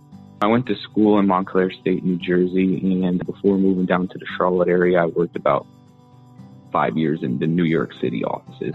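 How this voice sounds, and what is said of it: American Northeastern accent. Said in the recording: “somewhere in the Northeast ... I know my accents. ... I do stick out like a sore thumb down here with the accent.”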